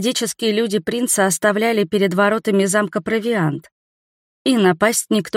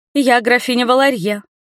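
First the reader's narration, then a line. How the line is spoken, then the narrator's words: Ringing clear voice. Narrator (Russian): звонким голосом ответила я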